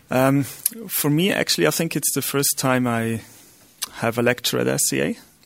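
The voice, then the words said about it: Austrian German accent in English. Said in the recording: “I'm Austrian, so my accent is not really accurate.”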